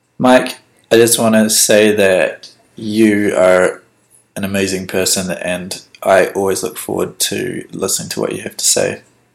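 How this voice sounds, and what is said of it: New Zealand accent. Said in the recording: “my accent probably sounds weird because I'm a New Zealander ... your accent does not sound weird. It sounds really cool, actually.”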